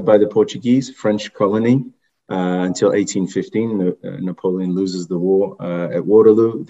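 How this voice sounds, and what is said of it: French-Creole accented English. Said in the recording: “your accent, your beautiful accent ... It's a mixture ... French and Creole were my first languages ... The accent has maybe faded off a little bit”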